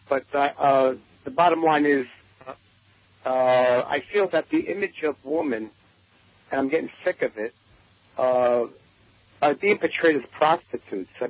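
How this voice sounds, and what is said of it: Heavy Brooklyn accent. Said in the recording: “excuse my heavy Brooklyn accent”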